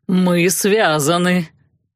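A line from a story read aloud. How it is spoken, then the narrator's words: Mocking chuckle. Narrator (Russian): хохотнул Нав глумливо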